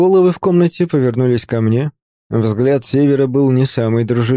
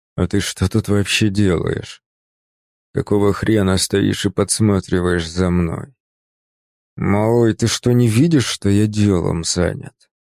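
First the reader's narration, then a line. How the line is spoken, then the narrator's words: Hissed. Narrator (Russian): Прошипел он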